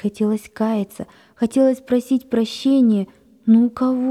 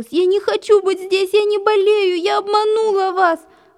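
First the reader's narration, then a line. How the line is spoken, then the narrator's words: Sobbing. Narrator (Russian): Рыдала она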